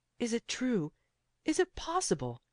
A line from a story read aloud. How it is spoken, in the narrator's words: he cried